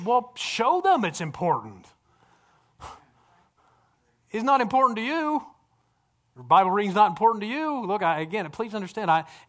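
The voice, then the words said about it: Yelling, loud preaching voice. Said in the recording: “Why are you yelling at us? Because the people aren't here that I want to yell at.”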